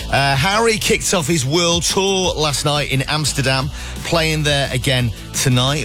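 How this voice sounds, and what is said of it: Hoarse, sore-throated voice. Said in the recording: “why I've got a sore throat”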